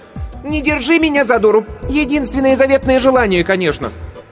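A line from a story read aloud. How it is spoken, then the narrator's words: Unrestrained shout. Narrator (Russian): Кирстен, немало не заботясь о монаршем достоинстве, закричала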